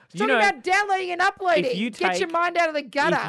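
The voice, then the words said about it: Broad Australian bogan accent. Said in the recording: “Where's this accent coming from? You are a lady. ... I turn into just bogan”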